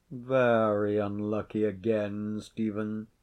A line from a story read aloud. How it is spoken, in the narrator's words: said Sir John, without altering his voice a single note